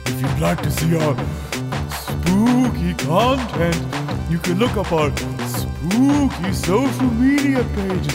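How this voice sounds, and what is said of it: Spooky voice. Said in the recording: “in this spooky voice”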